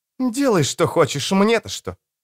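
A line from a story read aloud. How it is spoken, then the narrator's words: Snapping. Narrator (Russian): Эстер огрызнулась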